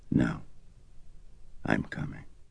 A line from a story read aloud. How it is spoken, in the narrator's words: Dyer said quietly